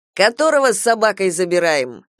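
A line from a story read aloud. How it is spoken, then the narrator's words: Mocking question. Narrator (Russian): насмешливо спросил дядя Максим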